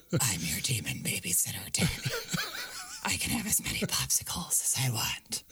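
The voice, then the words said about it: Gravelly Batman-like demon voice. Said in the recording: “my Batman voice is the same as my demon voice ... I've been doing this voice”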